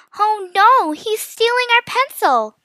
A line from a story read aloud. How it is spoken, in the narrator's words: Mia shouted